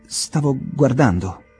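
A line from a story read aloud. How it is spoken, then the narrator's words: Stammer. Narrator (Italian): balbettò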